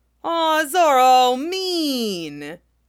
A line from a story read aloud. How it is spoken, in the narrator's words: Luffy whines